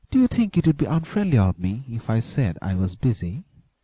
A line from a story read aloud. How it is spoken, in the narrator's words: he inquired in a shy and timid voice